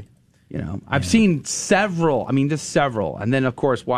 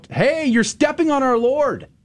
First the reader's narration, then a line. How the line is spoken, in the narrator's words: scream out